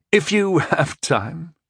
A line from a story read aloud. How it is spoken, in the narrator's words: I chuckled